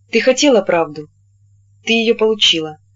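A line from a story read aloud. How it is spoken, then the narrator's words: Even, calm voice. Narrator (Russian): говорил он ровным, спокойным голосом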